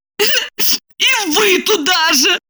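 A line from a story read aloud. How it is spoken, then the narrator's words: Sobbing. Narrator (Russian): всхлипнула Липочка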